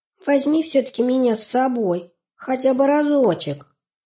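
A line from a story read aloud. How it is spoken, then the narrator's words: Thin little pleading voice. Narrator (Russian): Сипсик попросил своим тоненьким голоском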